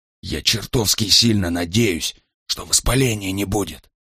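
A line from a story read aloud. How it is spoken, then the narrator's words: Whispered. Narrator (Russian): прошептал Брайан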